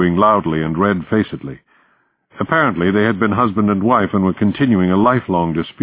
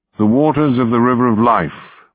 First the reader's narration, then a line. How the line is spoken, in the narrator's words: Burton said